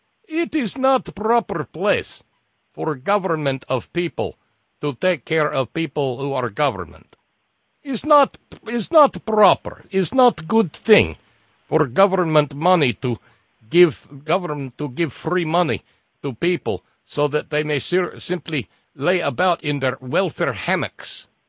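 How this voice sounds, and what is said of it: Paul Ryan impression, Russian accent. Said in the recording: “That's Paul Ryan with a Russian accent.”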